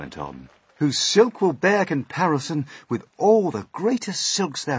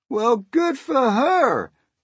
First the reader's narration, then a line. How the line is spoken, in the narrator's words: the cops cried out